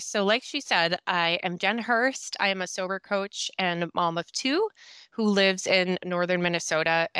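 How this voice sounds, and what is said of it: Minnesota accent. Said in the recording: “if you can just tell my accent right there, Minnesota”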